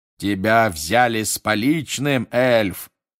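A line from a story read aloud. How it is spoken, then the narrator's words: Roaring. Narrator (Russian): проревел мистер Диггери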